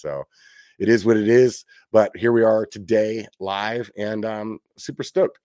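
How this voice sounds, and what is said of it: Worn-out rough voice from cold. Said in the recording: “my voice is like a little shot right now ... me laid up with the cold for the last like 4 days”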